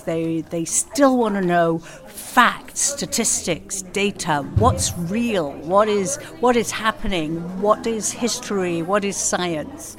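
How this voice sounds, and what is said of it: English accent. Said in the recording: “originally in England, you may hear from the accent”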